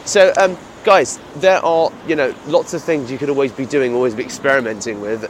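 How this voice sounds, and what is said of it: British accent. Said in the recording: “my British accent”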